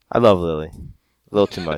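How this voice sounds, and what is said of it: Suddenly deeper, lower-pitched voice. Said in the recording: “why did your fucking voice drop a register when you said that?”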